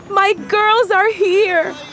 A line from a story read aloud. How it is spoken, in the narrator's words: Abuela shouted from the balcony